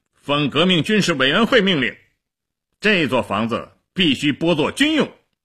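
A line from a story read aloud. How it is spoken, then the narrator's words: Loud announcement. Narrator (Chinese): 齐比索夫大声地宣布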